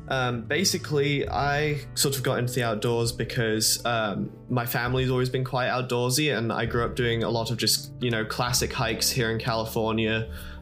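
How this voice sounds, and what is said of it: English accent. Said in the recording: “I was actually born in England, which is the accent you're hearing”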